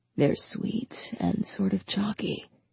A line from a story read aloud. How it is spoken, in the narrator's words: he whispered in her ear